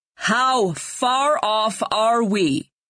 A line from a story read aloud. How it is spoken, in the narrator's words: he shouted back more firmly